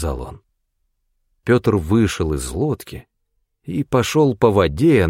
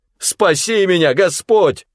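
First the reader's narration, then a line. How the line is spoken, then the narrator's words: Shout. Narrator (Russian): закричал он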